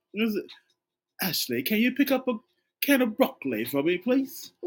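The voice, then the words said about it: Put-on British accent. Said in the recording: “use a British accent when you're using that”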